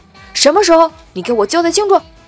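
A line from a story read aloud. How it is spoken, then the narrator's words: Angry questioning. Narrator (Chinese): 我一听怒了，问他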